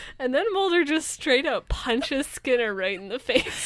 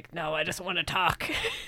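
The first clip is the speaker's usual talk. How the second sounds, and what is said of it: Imitates a character's voice. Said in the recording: “my Skinner impression”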